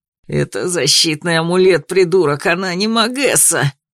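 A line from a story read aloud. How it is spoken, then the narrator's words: Growled. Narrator (Russian): прорычал Томин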